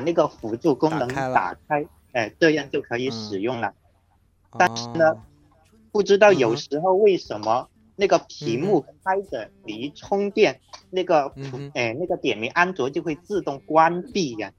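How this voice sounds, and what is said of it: Southern Chinese regional accent. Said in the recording (Chinese): “你是广东人吗？是广东广西那边的吗？ ... 听这个口音，应该是少数民族的。”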